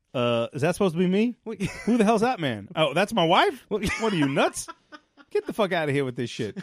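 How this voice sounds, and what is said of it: Barack Obama impression. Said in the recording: “Never did an Obama impression before ... you're knocking him out of the park”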